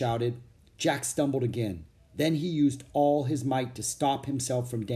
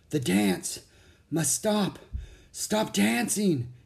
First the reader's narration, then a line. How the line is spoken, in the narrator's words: gasped the older knight